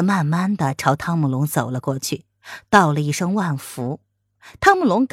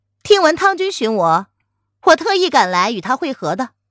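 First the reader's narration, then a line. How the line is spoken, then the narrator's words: Laughing. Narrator (Chinese): 蒋灵谦也笑着说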